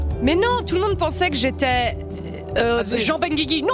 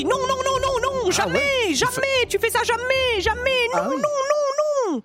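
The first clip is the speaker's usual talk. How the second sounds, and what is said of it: Put-on pied-noir French accent. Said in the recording (French): “quel bluffant. Magnifique accent pied noir.”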